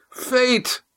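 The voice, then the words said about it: Hoarse shout. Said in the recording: “Her last word was a hoarse shout.”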